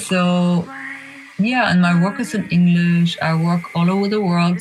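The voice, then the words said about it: Non-native English accent. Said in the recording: “my accent or whatever, my bad English or my mistakes or my off things”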